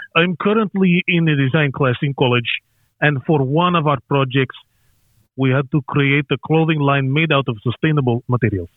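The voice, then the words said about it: Put-on Russian accent. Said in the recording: “Okay, Russian. ... Better.”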